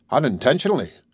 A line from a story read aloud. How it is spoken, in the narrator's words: the stranger replied, raising his voice a little